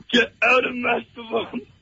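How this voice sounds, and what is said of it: Shrek character voice impression. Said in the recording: “does a really good Shrek impersonation”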